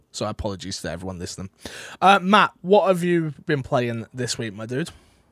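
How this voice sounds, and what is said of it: Hoarse, unsteady sore-throat voice. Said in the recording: “my voice tone. My voice is going up and down and left and right. I've got a bad throat. I'm not very well.”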